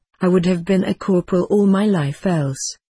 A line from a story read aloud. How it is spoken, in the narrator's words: he said